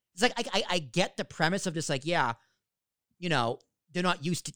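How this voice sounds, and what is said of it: Mixed New York Boston accent. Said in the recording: “I have a little bit of both of the New York Boston accent ... lose the accent ... you got to fix your R's. I'm like, I can't.”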